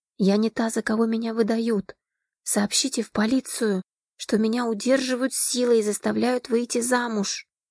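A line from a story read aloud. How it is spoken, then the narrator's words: Quiet. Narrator (Russian): негромко произнесла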